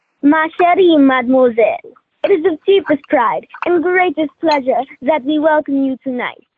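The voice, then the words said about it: Put-on French accent. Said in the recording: “give us a line as Lumineer with your French accent ... that's a great job”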